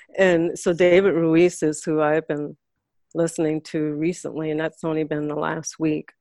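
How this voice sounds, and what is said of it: New York Puerto Rican accent. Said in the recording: “I sense a New York accent ... You got some New York in here, some Puerto Rican ... it really sounds like a New York Puerto Rican”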